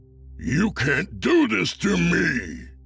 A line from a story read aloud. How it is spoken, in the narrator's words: Santa bellowed